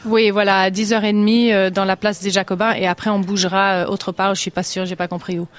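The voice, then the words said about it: American accent speaking French. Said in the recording (French): “c'est un drôle d'accent pour un accent de Barcelone ... moi, je suis des États-Unis”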